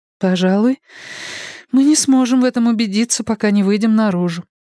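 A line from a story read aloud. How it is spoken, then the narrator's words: Sighing. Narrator (Russian): вздохнула Энея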